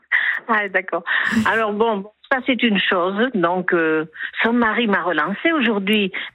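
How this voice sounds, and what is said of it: Slight southwestern French accent. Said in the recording (French): “accent du Sud ... Je reconnaissais le petit accent du Sud-Ouest.”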